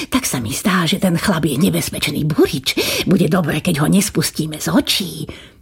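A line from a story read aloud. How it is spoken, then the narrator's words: Whispered into ear. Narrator (Slovak): pošepkal kniežaťu do ucha kastelán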